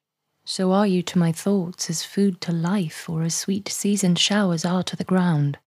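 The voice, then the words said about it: Received pronunciation British accent. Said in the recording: “I'm going to read them all in a received pronunciation British accent.”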